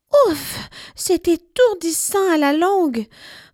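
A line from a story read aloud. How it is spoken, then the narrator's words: Sighing. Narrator (French): soupire-t-elle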